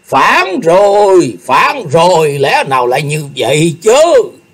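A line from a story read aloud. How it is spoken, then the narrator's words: Frightened angry crowd shouting. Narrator (Vietnamese): Chúng quan lại vừa sợ vừa giận, cùng kêu thét lên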